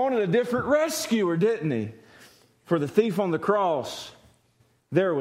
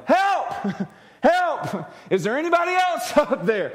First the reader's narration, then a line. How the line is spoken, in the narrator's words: Jack yelled